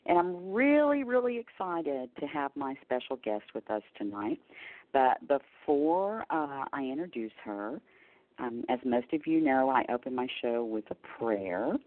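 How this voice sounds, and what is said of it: Slight Texas twang. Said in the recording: “I am coming to you live from Texas. So if you hear a little twang in my voice or I say y'all, you'll understand why.”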